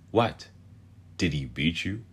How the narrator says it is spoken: Wraith asked

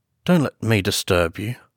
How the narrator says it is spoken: said with a certain faltering articulation

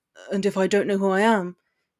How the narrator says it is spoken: he questioned, his voice quivering slightly

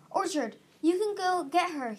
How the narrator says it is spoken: he yelled

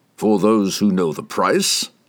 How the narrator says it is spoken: chuckled Dordamont

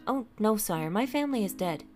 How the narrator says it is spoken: Bertie replied quickly

